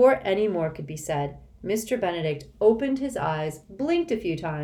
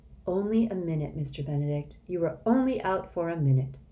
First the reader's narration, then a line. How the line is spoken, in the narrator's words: Rhonda said gently